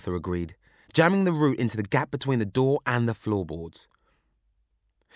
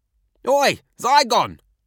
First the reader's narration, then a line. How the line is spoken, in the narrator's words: shouted